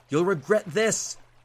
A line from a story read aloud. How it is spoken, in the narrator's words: he shouted, red-faced